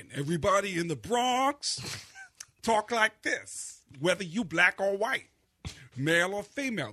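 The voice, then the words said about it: Tracy Morgan impression, Bronx accent. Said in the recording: “everyone in the Bronx sounds like Tracy Morgan.”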